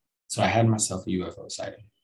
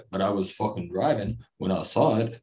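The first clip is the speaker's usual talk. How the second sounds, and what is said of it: Put-on tough-guy movie accent. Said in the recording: “I don't know where that accent came from. I should keep that in the back of my head. That's a good accent, man. ... it's almost Stallone-ish”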